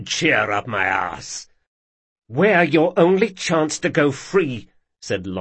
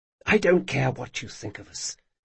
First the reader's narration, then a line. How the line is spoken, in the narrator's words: she whispered